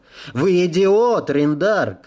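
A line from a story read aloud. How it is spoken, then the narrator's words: Shouting. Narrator (Russian): кричал прибывший на подводной лодке человек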